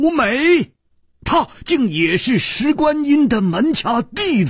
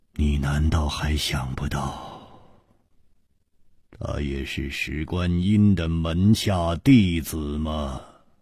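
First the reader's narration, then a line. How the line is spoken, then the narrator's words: Long sigh, word by word. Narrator (Chinese): 楚留香长长的叹了一口气，一字字的说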